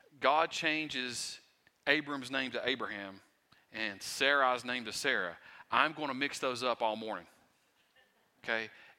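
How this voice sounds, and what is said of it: Southwest Virginia Appalachian accent. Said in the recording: “I am from Wise County, Virginia ... my accent, sometimes I have trouble speaking”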